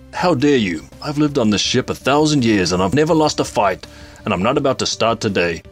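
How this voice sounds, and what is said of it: Imitates another person's voice, poorly. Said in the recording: “he's played by David Tennant, Robbie, so that I've just done a terrible impression ... obviously I haven't done anywhere near enough work to do it”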